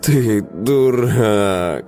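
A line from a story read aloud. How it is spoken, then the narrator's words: Tired. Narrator (Russian): сказала Камелия устало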